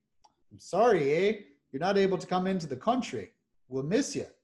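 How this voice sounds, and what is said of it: Poor put-on Canadian accent. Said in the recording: “It's probably a terrible Canadian accent ... It's not the best.”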